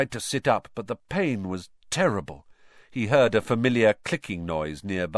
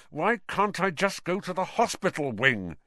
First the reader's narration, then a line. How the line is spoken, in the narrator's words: said Harry through clenched teeth